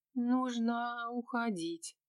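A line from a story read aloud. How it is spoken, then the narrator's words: Sleepy mumble. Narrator (Russian): сонно пробормотала Василиса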